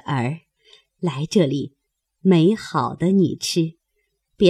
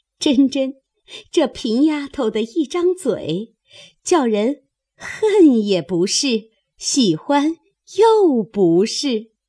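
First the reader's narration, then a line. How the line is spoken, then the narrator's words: Laughing. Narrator (Chinese): 宝钗也忍不住笑着，说道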